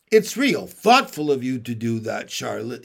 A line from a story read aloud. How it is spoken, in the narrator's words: he said